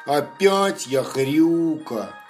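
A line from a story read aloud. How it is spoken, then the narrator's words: Sighed. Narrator (Russian): вздохнул Лапа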